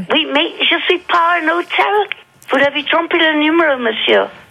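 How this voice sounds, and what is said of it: French with a Chinese accent. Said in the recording (French): “elle a un accent chinois”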